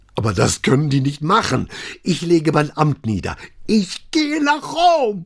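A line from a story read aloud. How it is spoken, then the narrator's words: Bellowing. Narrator (German): Diesen letzten Satz brüllte er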